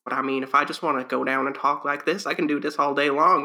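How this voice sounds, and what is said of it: Put-on Southern US man's accent. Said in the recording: “I never picked up the Southern accent, but I can imitate it perfectly on command when I want to ... I only know the Southern man voice”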